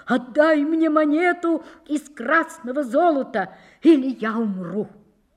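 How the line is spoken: Loud pleading cry. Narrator (Russian): прокаженный громко закричал, взывая к нему

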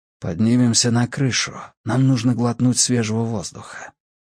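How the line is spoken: Whisper in ear. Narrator (Russian): его голос прошептал ей на ухо

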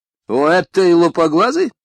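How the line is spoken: Sharp exclamation. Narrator (Russian): воскликнула мисс Кэррингтон несколько резко

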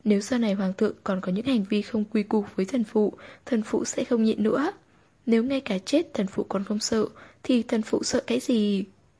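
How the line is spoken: Fearless, steady. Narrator (Vietnamese): Tư Nhược Lan không hề sợ hãi, tiếp tục nói

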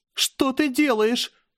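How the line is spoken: Near-hysterical shout. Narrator (Russian): закричала она почти в истерике

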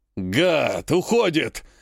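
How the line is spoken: Growled. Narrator (Russian): рыкнул кавалерист

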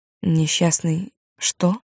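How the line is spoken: Calm, indifferent. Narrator (Russian): так спокойно и равнодушно говорит

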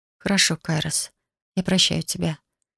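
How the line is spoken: Quiet. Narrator (Russian): тихо сказала я

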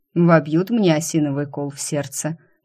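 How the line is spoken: Grim joking. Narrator (Russian): мрачно пошутил Ван Райен

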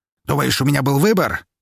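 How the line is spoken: Barked. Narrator (Russian): рявкнул он

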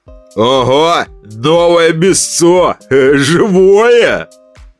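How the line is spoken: Joyful shout through mask. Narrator (Russian): радостно закричал человек в дешевой пластиковой маске поросенка

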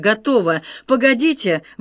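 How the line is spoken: Exclaiming. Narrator (Russian): воскликнул Тревор

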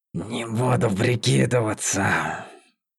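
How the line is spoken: Whisper. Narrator (Russian): шепнула она

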